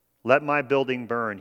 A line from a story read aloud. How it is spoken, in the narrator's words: he said